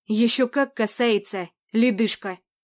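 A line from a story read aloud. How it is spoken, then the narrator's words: Growled. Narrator (Russian): рыкнул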